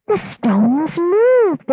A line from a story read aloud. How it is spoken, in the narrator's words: they cried